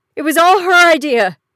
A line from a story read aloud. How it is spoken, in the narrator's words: he yelped